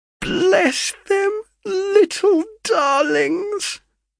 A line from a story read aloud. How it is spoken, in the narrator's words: cried she, in a sudden burst of enthusiasm